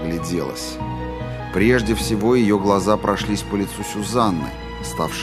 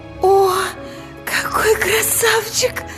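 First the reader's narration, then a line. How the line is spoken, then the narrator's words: Cooing. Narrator (Russian): ворковала Мия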